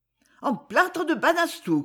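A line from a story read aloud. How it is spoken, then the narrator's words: Shouting. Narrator (French): criait-elle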